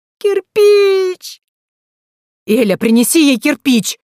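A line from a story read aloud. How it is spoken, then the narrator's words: Desperate male yelling. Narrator (Russian): завопил мужчина в отчаянии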